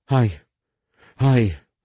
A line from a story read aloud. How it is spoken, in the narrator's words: the woman stammered